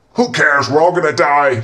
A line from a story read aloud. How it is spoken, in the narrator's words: Chen interrupted, screaming from his tent